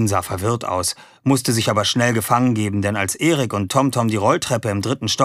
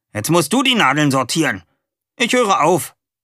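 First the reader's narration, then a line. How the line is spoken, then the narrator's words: Calling out. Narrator (German): rief er der Sau in der Nähe zu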